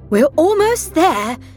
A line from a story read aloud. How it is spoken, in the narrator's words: said Dad excitedly